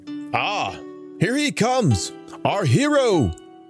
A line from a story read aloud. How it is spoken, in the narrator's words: cried the people